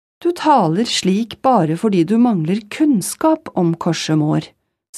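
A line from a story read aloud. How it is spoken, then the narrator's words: Said calmly. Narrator (Norwegian): sa kongen rolig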